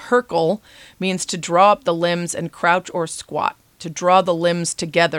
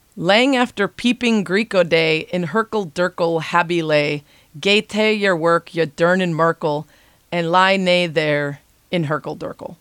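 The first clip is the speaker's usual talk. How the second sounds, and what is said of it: Deliberately bad put-on Scottish accent. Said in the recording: “my terrible Scottish accent”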